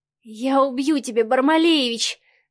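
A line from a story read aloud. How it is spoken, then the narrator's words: Passionate moan. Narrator (Russian): простонала Марианна, не имея больше сил сопротивляться ярким эмоциям и лавине страсти, которую спровоцировал Савва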